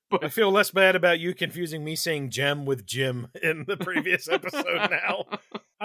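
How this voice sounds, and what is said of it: North Carolina-style American accent. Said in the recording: “I've got a proxy North Carolina accent”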